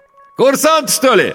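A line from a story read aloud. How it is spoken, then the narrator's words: Ringing shout. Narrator (Russian): звонко крикнул водитель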